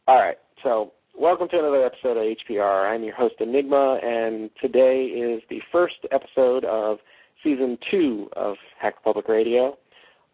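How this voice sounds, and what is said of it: Announcer-style radio voice. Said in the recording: “Get my radio voice. Stank does a much better job at this than me”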